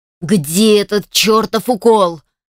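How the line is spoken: Yelling with all his might. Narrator (Russian): Что есть мочи, заорал

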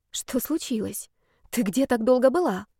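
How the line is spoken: Quiet question. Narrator (Russian): спросила тихо Алсу

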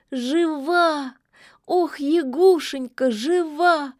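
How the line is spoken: Sudden sob. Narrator (Russian): Она вдруг всхлипнула

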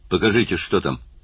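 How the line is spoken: Sharp. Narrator (Russian): Генерал Уэйдер резко бросил

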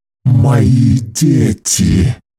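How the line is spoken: Low menacing growl. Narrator (Russian): Низко и угрожающе прорычала Дори

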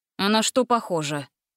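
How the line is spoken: Scoffing snort. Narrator (Russian): хмыкнул Дженкинс

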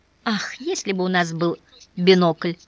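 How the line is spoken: Sighing. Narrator (Russian): вздохнула Мария Волконская

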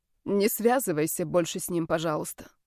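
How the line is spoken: Quiet plea. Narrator (Russian): тихо попросила

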